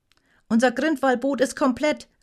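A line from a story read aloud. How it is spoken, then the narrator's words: Calling out. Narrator (German): rief Grognet mit einem nervösen Seitenblick auf die anderen Boote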